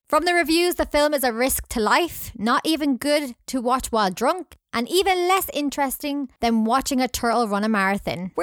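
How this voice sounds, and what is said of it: Scottish accent. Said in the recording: “I'm going to blame it on my accent. ... easier for a Scottish person to say Kang”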